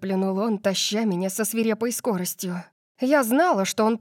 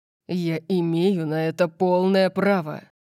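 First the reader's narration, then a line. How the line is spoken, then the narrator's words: Growled. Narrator (Russian): Прорычал он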